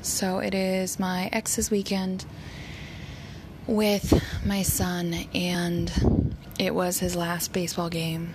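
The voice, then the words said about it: Voice cutting in and out. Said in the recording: “My voice is a little in and out today”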